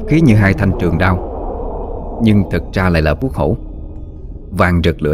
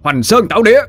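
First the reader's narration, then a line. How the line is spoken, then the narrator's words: Fierce shout. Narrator (Vietnamese): Dũng tung vuốt mà quát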